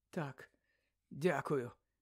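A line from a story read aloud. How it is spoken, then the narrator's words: Weak voice. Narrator (Ukrainian): слабким голосом обізвався Гаррі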